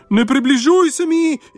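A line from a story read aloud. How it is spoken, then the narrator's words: Shrieking. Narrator (Slovenian): je kriknila zemlja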